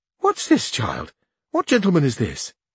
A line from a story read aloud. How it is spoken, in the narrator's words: she exclaimed